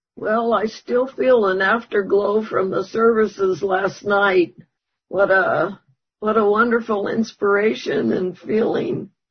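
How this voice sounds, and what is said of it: Hoarse, failing voice. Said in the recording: “I'm losing my voice,”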